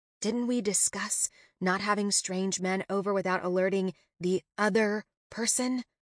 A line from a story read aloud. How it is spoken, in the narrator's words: whisper hiss